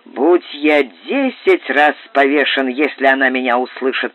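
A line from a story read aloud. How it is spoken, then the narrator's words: Grumbling captain. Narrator (Russian): проворчал капитан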